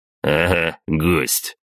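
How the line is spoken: Smirking snort from behind. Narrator (Russian): хмыкнул он за моей спиной

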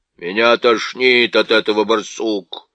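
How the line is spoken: Grumbling. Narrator (Russian): проворчал Никабрик

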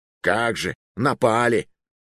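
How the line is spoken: Scornful snort, old man. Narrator (Russian): фыркнул старикашка

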